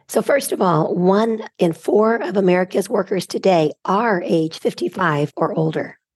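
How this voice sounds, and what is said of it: Squeaky hoarse voice. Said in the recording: “I'm recovering from laryngitis, so I apologize for the squeaky voice.”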